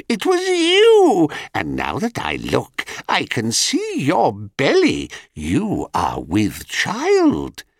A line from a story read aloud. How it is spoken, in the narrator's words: screeched the crone